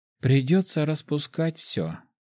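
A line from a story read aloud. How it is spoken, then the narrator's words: Sighing. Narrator (Russian): вздохнула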